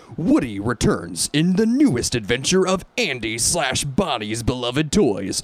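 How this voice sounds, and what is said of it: Radio DJ voice. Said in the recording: “do it in my DJ voice?”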